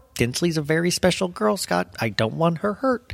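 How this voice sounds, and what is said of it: Imitates another person's voice. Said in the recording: “That's my Dale Mercer ... Just let's pretend that's a Dale Mercer impersonation.”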